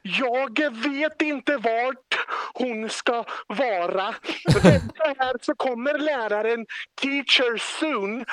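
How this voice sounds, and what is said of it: Exaggerated, over-articulated slow speech. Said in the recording (Swedish): “hon öppnar munnen och artikulerar allting överdrivet”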